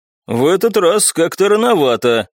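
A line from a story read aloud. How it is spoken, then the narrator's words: Snorting, wry. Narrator (Russian): хмыкнул мужчина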